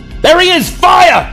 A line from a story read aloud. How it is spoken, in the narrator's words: shouts one of them